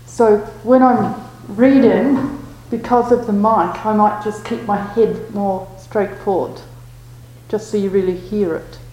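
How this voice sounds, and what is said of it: Speaks with a non-native accent. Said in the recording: “I know my accent makes it more difficult.”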